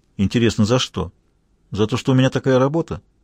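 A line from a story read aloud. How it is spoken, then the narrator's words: Flat, dispassionate tone. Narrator (Russian): спросил вундеркинд абсолютно ровным, бесстрастным тоном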